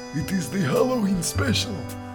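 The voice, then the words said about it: Spooky Halloween voice. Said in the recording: “spooky voice ... I like doing that voice.”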